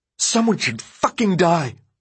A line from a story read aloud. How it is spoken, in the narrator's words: Ben spat